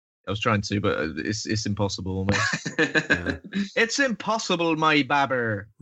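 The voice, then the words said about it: Bristolian English accent. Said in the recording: “It sounds great in the Bristolian accent as well. ... I like your accent. It's lovely.”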